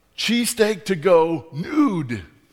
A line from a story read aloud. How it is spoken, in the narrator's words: she yelled to the guy at the grill